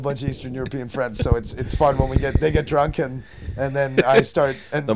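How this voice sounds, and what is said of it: Usual voice. Nothing is said of it.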